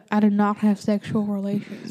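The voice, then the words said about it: Imitates another person's voice. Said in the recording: “Do the voice ... Say what Bill said”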